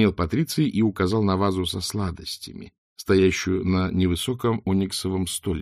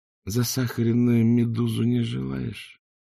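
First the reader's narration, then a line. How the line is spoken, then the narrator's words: Drawling. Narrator (Russian): протянул Ринсвинд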